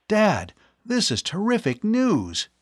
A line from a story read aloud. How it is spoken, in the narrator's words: He exclaimed